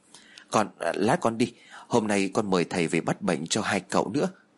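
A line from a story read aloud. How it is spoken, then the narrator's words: Startled stammering. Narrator (Vietnamese): Duyên bị bà Phú làm cho giật mình cho nên bèn lắp bắp nói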